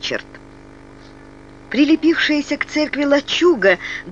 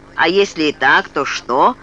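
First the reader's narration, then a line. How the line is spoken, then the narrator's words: Snapping retort. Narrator (Russian): огрызнулся сидящий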